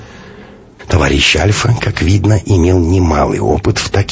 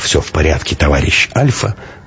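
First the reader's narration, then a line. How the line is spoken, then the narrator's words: Confident tone. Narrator (Russian): можно было говорить очень даже уверенным тоном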